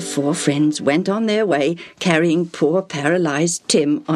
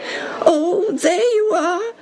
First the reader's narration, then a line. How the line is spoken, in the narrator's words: poor Tim whined